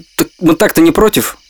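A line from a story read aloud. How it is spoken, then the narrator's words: Plain. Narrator (Russian): ответил Гена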